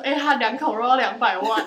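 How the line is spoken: Laughing wildly. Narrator (Chinese): 我们就会狂笑说

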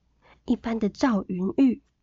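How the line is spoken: Hushed voice. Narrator (Chinese): 林可竹压低声音说

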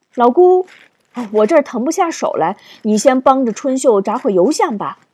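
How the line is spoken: Calling out. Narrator (Chinese): 大嫂便叫住他

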